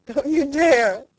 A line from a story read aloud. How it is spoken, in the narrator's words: laughed Edith Carr